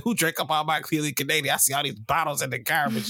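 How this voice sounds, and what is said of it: Imitating his mother's voice. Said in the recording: “mom, am Sorry that I do that voice, mom”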